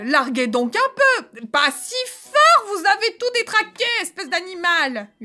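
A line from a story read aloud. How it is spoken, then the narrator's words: Yelling angrily. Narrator (French): hurlez-vous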